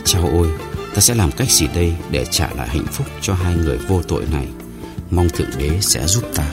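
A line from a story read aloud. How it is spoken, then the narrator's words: Muttering. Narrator (Vietnamese): người đó lẩm bẩm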